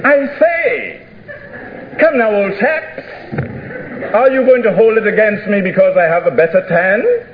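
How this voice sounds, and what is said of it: Put-on posh Cambridge English accent. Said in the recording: “in my best Cambridge accent”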